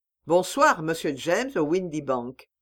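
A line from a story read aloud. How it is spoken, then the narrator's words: Plain. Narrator (French): dit Holmes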